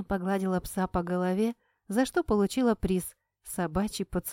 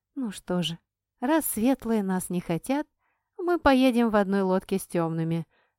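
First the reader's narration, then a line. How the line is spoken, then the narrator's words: Plain. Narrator (Russian): сказала я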